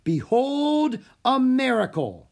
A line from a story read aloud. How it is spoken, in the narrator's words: Houdini shouted